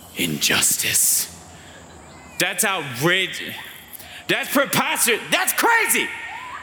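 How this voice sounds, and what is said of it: Raised, shouting voice. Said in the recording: “I'm sorry I raised my voice.”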